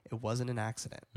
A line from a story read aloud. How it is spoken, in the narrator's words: Luke very creepily leans in close to her ear, whispers in her ear